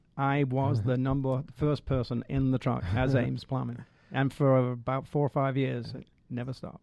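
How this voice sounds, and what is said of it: Manchester English accent. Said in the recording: “you're not from around here, at least not originally ... Can you pick up the accent? ... I'm from Manchester, England.”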